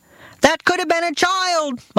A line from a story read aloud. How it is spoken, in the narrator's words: my father shouted